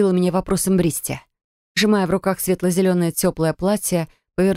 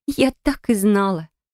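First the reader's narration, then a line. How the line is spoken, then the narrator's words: Smug snort, female. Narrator (Russian): хмыкнула рыжеволосая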